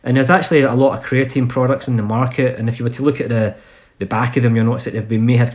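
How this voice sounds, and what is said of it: Glasgow Scottish accent. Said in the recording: “it's a weird Glasgow accent”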